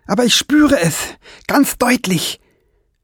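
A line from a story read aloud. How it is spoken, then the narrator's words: Calling out. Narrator (German): rief Fliegenbein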